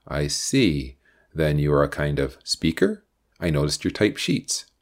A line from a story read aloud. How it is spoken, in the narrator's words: asked Mark